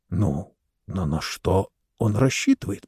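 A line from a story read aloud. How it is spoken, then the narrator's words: Whisper. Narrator (Russian): прошептал третий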